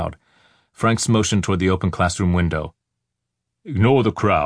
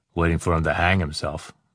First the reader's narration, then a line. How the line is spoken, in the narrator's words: Pinto muttered